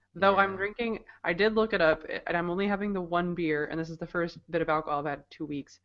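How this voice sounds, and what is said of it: Rough, sick-sounding voice. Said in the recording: “Bronchitis... my voice sounds kind of jacked, it's because I'm still sick”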